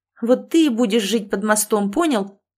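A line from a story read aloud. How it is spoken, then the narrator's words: Sister's sharp bark. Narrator (Russian): рявкнула на него сестра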